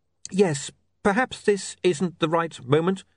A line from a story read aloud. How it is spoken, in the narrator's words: he added nervously